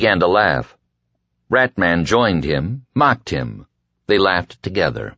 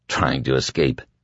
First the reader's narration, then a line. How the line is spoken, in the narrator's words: Larry murmured